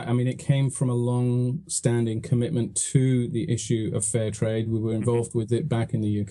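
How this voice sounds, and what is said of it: British accent. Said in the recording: “with my accent”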